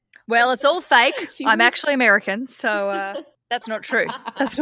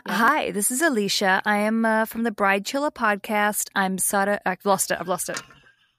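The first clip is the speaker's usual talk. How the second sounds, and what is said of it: Put-on American accent. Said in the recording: “I can do the American. If you want me to do it, I can talk like this the whole time. ... in an American voice”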